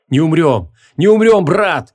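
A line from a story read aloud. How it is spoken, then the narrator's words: Shouting. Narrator (Russian): прокричал Шамшутдин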